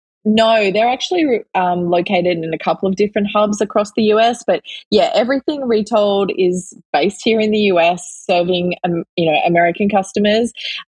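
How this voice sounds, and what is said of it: Australian accent. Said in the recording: “my co-founder Alan and I are both Aussie ... we just haven't lost our accents ... I love your accent.”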